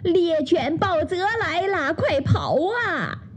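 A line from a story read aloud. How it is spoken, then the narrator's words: Shrill cry. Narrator (Chinese): 乌鸦布雷奇尖声叫道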